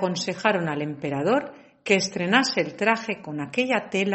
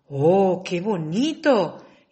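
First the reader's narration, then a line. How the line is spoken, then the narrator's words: Exclaiming. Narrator (Spanish): exclamar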